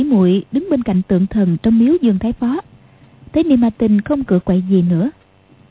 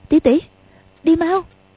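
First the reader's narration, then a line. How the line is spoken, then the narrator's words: Fearful, trembling voice. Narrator (Vietnamese): Quách Tương sợ, run run nói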